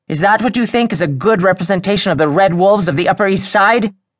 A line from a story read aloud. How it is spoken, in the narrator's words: He snarled